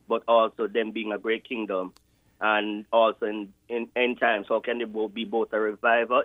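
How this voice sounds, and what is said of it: Jamaican accent. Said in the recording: “I always love the Jamaican accent. It's got a special dignity when I hear it.”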